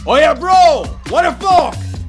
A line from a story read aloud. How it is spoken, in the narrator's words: A man emerges from his car shouting